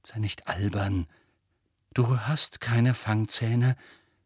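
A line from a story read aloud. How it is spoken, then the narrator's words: Shaky forced calm. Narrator (German): redete er sich zu und versuchte ruhig zu bleiben, obwohl die Hand zitterte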